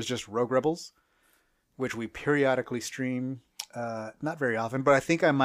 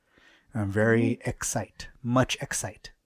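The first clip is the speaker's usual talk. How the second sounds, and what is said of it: Whispering. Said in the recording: “Why are you whispering?”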